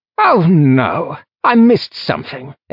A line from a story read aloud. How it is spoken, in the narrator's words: Athan cried